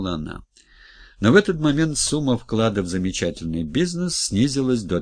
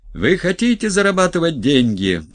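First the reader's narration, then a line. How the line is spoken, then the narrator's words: Shouted. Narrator (Russian): прокричал Журавлев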